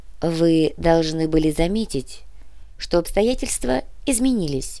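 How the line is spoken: Soft. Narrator (Russian): мягко произнес Вакагасира

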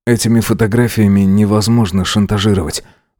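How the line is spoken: Gruff mutter. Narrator (Russian): буркнул красавчик

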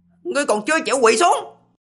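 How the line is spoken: Cold shout. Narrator (Vietnamese): Lý Vân quát lạnh

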